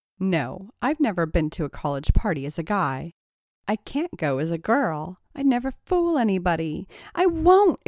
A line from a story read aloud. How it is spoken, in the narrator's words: exclaimed Tracy